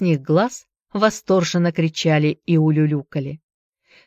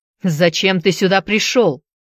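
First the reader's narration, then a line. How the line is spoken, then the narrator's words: Loud question. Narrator (Russian): громко спросил вампас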